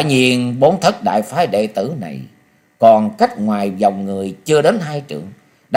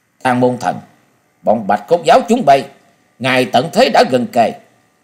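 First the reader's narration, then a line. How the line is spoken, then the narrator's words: Cold, through gritted teeth. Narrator (Vietnamese): Trần Âu Mai nghiến răng lạnh lùng nói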